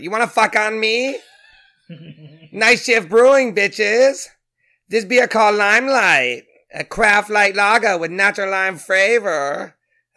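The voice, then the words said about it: Silly voice imitating another person. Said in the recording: “Are we reading a stupid voice? ... do Ken Jeong because you haven't done it in a while.”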